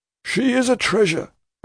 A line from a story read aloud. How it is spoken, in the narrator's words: exclaims Mr